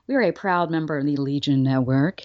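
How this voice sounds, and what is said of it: Polished professional announcer voice. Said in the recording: “Now I put in my professional voice.”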